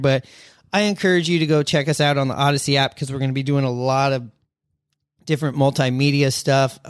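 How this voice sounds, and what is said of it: Voice fading, losing voice. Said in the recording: “I'm losing my voice”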